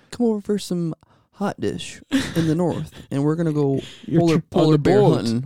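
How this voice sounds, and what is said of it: Noticeable regional accent. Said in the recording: “your accent's not just for the kids ... talk without an accent ... That sounded no different.”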